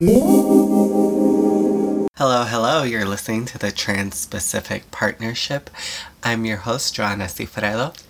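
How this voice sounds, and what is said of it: Congested, sick-sounding voice. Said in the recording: “it sounds like some sort of woodland creature crawled up your nose and died ... You sound more than a little under the weather ... Okay, fine, I'm sick.”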